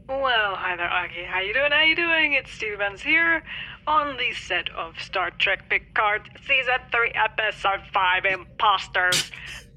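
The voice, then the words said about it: Imitates another person's voice. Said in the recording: “My voice impersonations change from day to day.”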